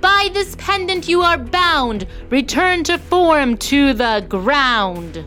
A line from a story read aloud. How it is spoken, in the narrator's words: Nina shouted